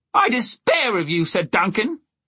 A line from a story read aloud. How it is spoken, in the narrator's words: he shouted